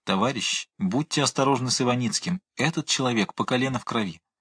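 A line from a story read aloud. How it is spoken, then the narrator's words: Whisper. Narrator (Russian): Брайнин шептал мне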